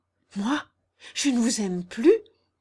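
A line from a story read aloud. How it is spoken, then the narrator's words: Choked tearful cry. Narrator (French): s'écria Jeanne à son tour, suffoquée par des larmes soudaines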